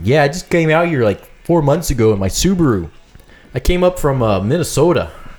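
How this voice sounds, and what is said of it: Put-on Wisconsin accent. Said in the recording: “Can you give me a Wisconsin accent? ... give me a Wisconsin accent.”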